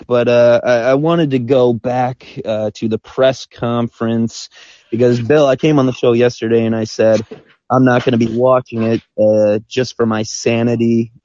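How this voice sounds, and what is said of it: Sick, rough voice. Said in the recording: “Sorry about my voice here, just a bit sick”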